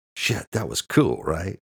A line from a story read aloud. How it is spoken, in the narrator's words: Luke whispered excitedly